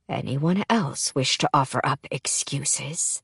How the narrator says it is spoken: Callias asks in a quiet voice

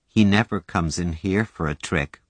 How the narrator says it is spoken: Doris said a little sadly

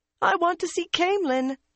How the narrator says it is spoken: Jancy squeaked, though she was still trembling

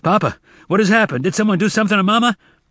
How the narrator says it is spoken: Zek shouting

